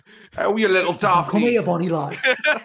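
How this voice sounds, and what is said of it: Put-on Geordie accent. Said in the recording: “I'm picturing a Geordie”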